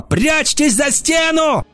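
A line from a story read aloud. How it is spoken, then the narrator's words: Shouting. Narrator (Russian): Бронвин заорала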